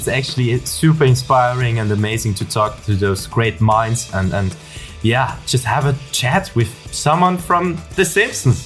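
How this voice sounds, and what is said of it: Austrian-accented English. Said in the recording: “lovely to hear your Austrian accent. You don't often hear an Austrian accent.”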